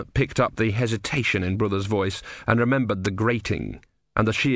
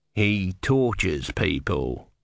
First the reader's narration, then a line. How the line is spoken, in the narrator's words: he said coldly